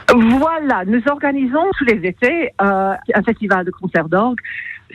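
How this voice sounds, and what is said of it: French with a light English accent. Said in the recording (French): “votre joli petit accent anglais”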